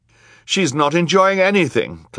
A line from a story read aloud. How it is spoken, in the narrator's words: Klaus cried